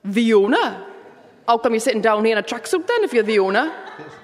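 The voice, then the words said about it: Put-on Geordie accent. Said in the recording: “a celebrity with a Geordie accent ... in his Geordie accent”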